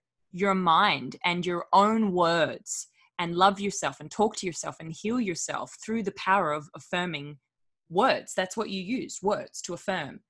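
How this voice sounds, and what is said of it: Partly Australian accent. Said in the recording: “the Aussie part of your accent”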